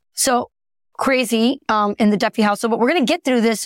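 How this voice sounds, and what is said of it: Raspy, lower-pitched sick voice. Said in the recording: “both of us have a little bit of raspy ... raspy voice ... I, am just going to sound a little sexier ... sound a, little sexier or like you have a male co-host”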